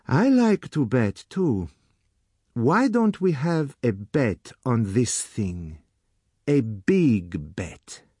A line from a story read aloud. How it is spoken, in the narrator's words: said slowly